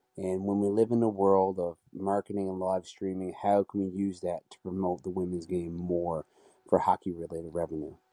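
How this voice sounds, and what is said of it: Newfoundland accent. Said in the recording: “Now, that's a Newfie accent right there. ... That's a Newfie. That is a Newfie.”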